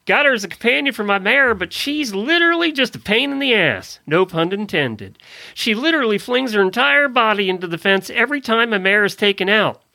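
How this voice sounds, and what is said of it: Put-on southern accent. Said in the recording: “You don't like my southern accent?”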